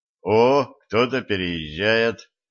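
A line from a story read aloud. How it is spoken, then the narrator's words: Young man's snorting remark. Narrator (Russian): хмыкнул юноша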